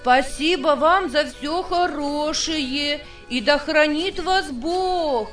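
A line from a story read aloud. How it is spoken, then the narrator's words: Shouting. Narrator (Russian): крикнул полко лесничихе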